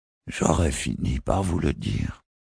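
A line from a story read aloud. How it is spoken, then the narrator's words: Weary murmur. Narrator (French): murmura-t-il d'un ton las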